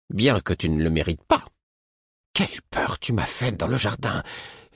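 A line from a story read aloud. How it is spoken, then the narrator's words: Icy tone. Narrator (French): me dit-elle d'un ton glacé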